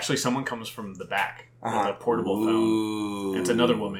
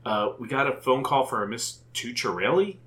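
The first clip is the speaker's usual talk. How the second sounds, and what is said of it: Put-on Southern accent. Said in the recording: “she has a southern accent ... Is that your southern accent?”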